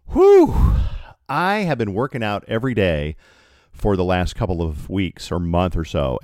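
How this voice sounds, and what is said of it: Out of breath, winded. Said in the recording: “a little out of breath from climbing the stairs ... But I'm still winded when I climb the stairs.”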